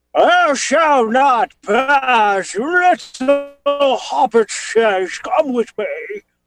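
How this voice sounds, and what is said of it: Gandalf impression. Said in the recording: “might even have a good impression for it ... I'm Gandalf”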